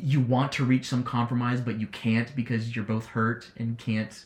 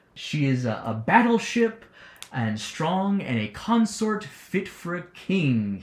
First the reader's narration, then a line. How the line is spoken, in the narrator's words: he says triumphantly